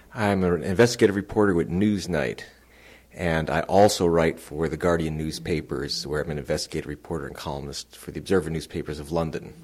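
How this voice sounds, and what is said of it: American accent, Californian. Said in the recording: “you can tell from my accent, I'm not Professor Henry Higgins. It's very American. I'm from California originally”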